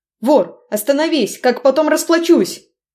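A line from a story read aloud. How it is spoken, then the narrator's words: Shout. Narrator (Russian): Кричал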